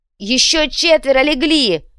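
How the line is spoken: Shout. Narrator (Russian): прокричал Отто

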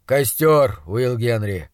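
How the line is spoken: Tired. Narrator (Russian): устало сказал доктор

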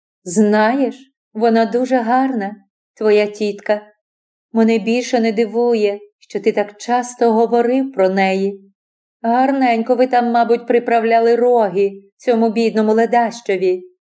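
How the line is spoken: Almost indifferent voice. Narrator (Ukrainian): вона почала майже байдужим голосом

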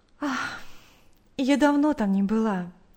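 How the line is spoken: Sighing. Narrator (Russian): вздохнув, сказала Наташа

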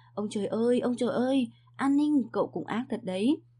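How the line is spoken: Awed, frightened admiration. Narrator (Vietnamese): Bạch Lộ cả một đường sợ hãi thán phục

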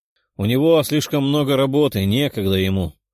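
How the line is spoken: Grumbling. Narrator (Russian): проворчала Даша

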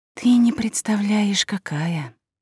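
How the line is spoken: Gloomy confirmation. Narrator (Russian): мрачно подтвердила мою догадку Райвер

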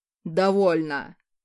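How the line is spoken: Barked. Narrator (Russian): рявкнул Хаосид

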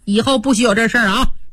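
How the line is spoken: Scolding. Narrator (Chinese): 训一通

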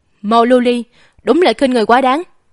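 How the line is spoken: Furious outburst. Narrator (Vietnamese): Tần Việt không nhịn được, trút hết tức giận trong lòng ra rồi nói

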